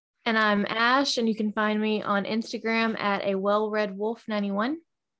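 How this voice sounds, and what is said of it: Low, sleepy early-morning voice. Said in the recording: “that's like a sexy voice today ... It's so early. It hasn't completely woke up yet.”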